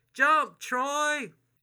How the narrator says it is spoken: His voice carries across the water

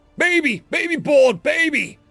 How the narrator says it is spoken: shouting in galactic static

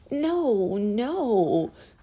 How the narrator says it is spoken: cried the little clown

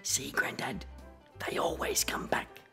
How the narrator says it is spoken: whisper

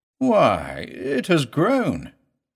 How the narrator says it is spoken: exclaimed

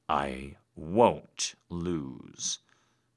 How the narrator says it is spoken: I growled

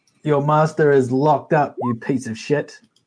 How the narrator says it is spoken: yell out

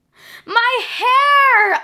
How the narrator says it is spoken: Amanda screamed

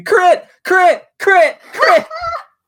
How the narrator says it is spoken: we're all screaming

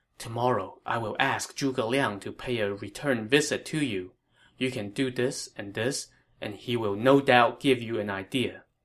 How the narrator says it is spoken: whispered in his ear

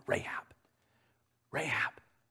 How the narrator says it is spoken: a voice calling out to her in a hushed tone

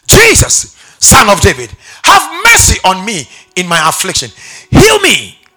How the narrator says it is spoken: When he heard that Jesus from Nazareth was passing by, he began to shout

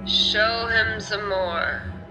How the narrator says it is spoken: said the goblin

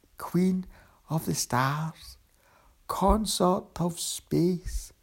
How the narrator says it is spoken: he said, his voice still weak, but the words steady and sure

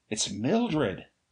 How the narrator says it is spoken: I gasped

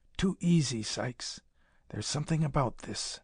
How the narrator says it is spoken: McGuire stopped again before plunging into the tangled growth to whisper

